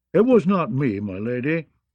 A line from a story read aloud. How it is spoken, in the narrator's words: he said in a sulky, sullen tone, like a child caught stealing apple cakes from the kitchen